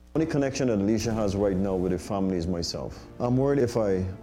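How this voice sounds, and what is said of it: Speaks English with a foreign accent. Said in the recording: “Can you figure out the accent? ... be South African? ... I feel like it's like some kind of like Latin American.”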